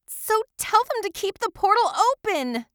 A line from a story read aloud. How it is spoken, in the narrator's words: Jillian shouted